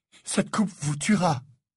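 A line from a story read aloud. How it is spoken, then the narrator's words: Breathless. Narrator (French): dit Harry haletant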